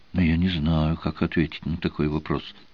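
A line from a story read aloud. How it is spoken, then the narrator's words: Uncertain speech. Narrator (Russian): неуверенно сказала Мартина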